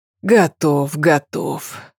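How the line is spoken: Grumbling. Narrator (Russian): проворчал

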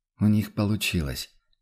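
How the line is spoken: Quiet sigh. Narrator (Russian): тихо вздохнул император

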